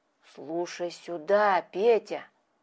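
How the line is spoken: Wary, fearful whisper. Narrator (Russian): зашептал ему, с опаской по сторонам озираясь

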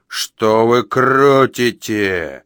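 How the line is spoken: Growling. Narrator (Russian): взрычал он

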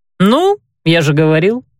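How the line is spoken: Cheerful statement. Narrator (Russian): весело констатировал Дамир

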